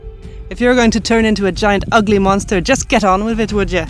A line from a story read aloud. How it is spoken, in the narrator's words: she demanded impatiently, eager for an end to this carriage wreck of a day